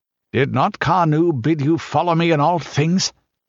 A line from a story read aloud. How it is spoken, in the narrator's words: asked the Pict irritably